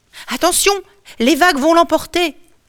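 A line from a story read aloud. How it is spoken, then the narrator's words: Servant shouting. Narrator (French): crie une servante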